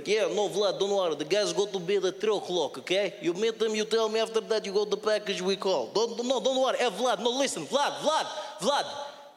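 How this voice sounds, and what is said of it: English with a Russian accent. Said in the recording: “the English-Russian accent”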